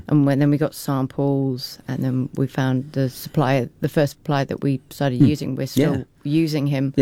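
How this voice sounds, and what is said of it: English accent. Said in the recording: “you can probably tell from our accents that we're English”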